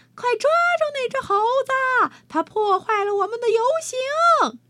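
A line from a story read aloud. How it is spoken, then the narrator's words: Shouting. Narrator (Chinese): 有人喊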